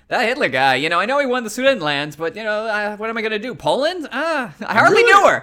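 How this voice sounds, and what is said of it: Imitates another person's voice. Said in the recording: “I'm really impressed by your Chamberlain impression. ... It's dead on. ... It's eerie.”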